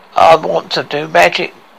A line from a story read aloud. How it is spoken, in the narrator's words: growled Stumpy